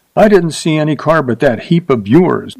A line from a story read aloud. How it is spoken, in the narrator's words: said sharply